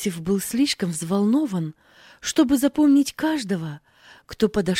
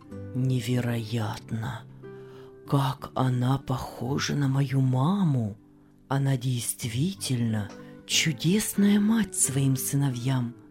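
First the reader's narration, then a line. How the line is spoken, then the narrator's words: Muttered. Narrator (Russian): Пробормотал Иосиф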